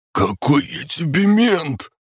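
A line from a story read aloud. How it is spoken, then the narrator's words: Wheezing. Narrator (Russian): Гоша захрипел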